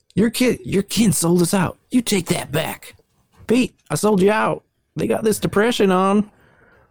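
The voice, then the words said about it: Put-on Southern American twang. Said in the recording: “the Southern twang”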